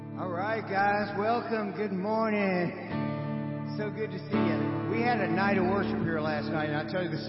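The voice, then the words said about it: Raspy, strained, worn-out voice. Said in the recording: “my voice is gone. ... you might hear me kind of raspy.”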